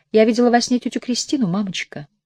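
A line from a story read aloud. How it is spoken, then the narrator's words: Quiet speech. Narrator (Russian): Семина тихо сказала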